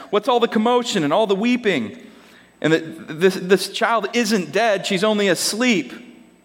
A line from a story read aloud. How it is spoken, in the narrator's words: Jesus saw much commotion and weeping and wailing, and he went inside and asked